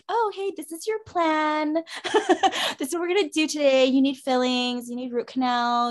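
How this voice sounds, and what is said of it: Customer service voice. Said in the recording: “customer service voice”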